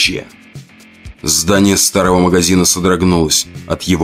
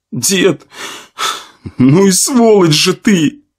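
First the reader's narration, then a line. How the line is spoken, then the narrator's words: Sobbing. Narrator (Russian): разрыдался парень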